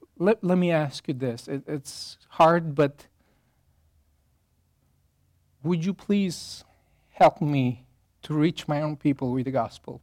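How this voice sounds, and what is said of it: Foreign accent in English. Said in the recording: “my weird accent”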